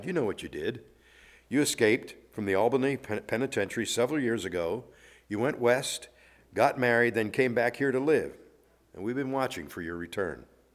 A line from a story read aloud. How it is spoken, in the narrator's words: The detective calmly replied